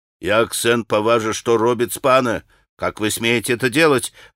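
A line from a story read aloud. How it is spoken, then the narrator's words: Barking. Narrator (Russian): рявкнул на Колганова и пан Врублевский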